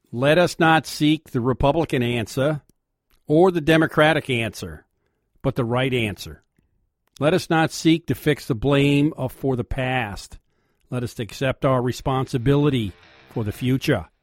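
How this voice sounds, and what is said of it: Kennedy impression in Boston accent. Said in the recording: “in the Boston accent ... Your Kennedy accent.”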